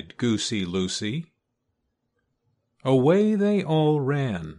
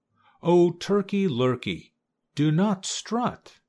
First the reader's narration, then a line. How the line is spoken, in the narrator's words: cried Goosey Lucy